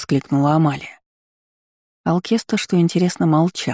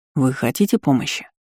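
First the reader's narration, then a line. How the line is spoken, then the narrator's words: Sharp question. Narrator (Russian): резко спросил Ирден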